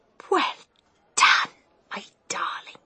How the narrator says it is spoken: she whispered back

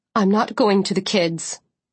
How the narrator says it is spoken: she said coldly

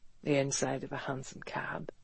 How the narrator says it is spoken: he said softly

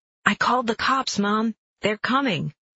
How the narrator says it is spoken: I hear him yell

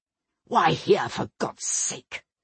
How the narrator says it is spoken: asked in an angry undertone

